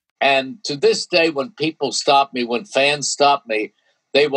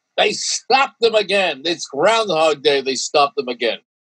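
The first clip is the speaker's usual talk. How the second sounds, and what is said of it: Impersonation of excited sportscaster call. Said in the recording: “I go into one of their impersonations of me”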